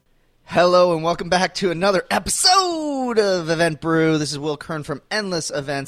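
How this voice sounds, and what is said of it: High-energy announcer voice. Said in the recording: “I'm done with my announcer voice ... you're pushing that pretty hard. You gotta be careful. You gotta preserve the voice ... super high energy”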